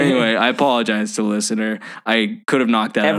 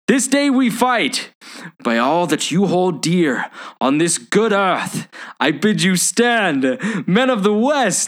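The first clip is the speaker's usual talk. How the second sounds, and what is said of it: Dramatic Aragorn impression, strained accent. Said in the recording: “I was wrestling with the accent. I was trying to sound like Aragorn.”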